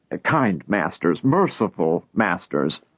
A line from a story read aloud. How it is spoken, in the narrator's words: Lot stammered